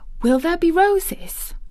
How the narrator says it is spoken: she whispered

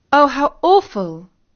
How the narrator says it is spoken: exclaimed Katie

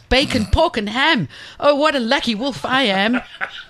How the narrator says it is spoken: he shouted

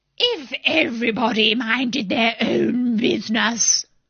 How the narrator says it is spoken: the Duchess said in a hoarse growl

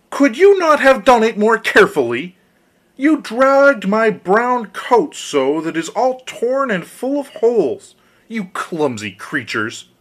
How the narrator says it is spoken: As soon as the dwarf had recovered from his first fright, he cried with a shrill voice

